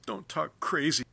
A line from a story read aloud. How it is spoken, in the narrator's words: says between sobs